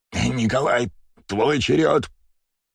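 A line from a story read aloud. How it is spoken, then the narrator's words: Hoarse wheeze. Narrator (Russian): прохрипел Ильич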